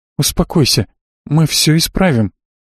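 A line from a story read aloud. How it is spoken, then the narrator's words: Timid babbling. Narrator (Russian): пролепетала Элли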